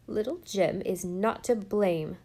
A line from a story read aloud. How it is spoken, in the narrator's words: snapped Susan